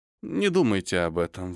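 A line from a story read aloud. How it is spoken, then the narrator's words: Sighing. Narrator (Russian): вздохнул Майкл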